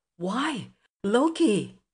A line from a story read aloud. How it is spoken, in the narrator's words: cried he